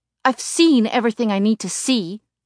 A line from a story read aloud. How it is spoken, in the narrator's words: I shout